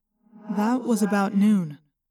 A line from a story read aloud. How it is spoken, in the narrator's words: Tobias said